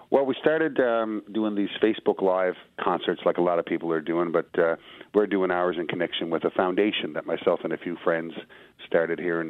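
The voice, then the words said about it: Newfoundland accent. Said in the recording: “I love the accent. I spent a lot of time on the Rock, and so I'm used to it.”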